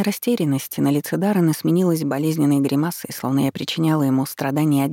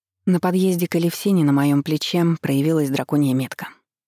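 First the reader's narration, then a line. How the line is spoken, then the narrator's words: Plain. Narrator (Russian): сказала ему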